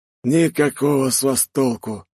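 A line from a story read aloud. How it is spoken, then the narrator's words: Sighing. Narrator (Russian): вздохнул парень без паука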